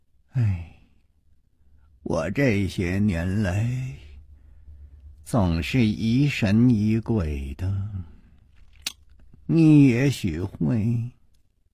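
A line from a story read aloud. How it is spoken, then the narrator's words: Long heavy sigh. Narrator (Chinese): 长叹了一声说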